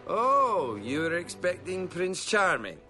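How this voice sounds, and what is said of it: Shrek's Scottish accent. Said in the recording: “We're doing a Scottish accent. ... He's the only character that speaks in a Scottish accent the whole time.”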